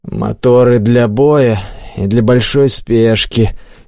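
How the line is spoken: Lazy. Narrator (Russian): лениво ответил Олег

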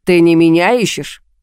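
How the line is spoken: Suddenly angry question. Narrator (Russian): спросил неожиданно зло

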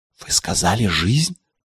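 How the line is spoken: Whispered repetition. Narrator (Russian): шепотом повторил я

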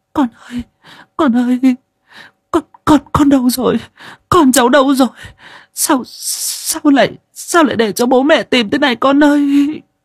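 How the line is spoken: Distraught, on verge of tears. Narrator (Vietnamese): Bác Cói dường như không giữ được bình tĩnh nữa, mà mếu máo

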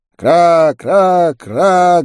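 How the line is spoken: Guttural crow cries. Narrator (Russian): гортанно кричали вороны

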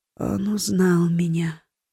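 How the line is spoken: Whisper. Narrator (Russian): прошептала Ори

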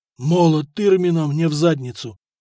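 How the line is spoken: Hoarse wheeze. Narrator (Russian): просипел абсолютно трезвый Сакс

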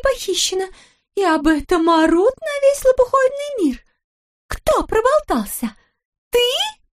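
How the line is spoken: Screaming. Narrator (Russian): Завопила она

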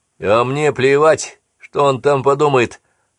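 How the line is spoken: Snapped. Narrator (Russian): огрызнулся Джейкобс

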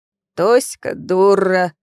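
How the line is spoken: Creaky. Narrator (Russian): снова проскрипел Гоша

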